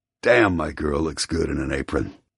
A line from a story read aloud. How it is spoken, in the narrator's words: he mutters, a wicked grin spreading across his face